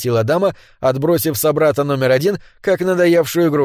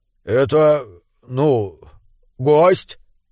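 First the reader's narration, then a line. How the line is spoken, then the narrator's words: Mumbling. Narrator (Russian): промямлил собрат номер один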